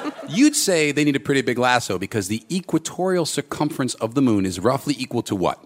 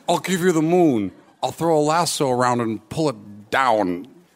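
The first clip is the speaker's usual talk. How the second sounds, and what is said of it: Poor imitation of another person's voice. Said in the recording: “best impression of Jimmy Stewart ... Oh, this is a terrible Jimmy Stewart.”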